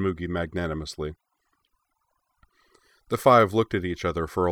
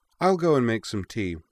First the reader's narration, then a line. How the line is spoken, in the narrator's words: said Moogie cheerfully